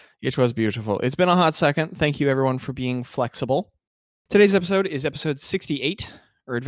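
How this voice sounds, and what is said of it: Usual voice. Nothing is said of it.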